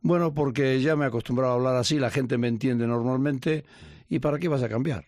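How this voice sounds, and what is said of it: Argentine-sounding Spanish accent. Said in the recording (Spanish): “ese acento que es como argentino”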